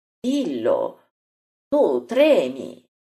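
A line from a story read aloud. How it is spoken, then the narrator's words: Exclamation. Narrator (Italian): esclama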